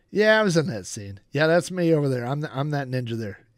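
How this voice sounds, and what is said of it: Imitates another person's voice. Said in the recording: “this is like, this is an impersonation of his commentary”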